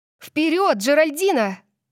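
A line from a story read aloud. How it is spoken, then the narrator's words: Shouting. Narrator (Russian): закричала я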